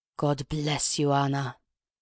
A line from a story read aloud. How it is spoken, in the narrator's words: murmured the old man again